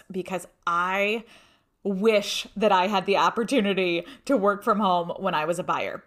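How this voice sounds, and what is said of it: Excited, animated voice. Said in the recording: “I don't know if you can hear it in my voice. I'm so excited about this”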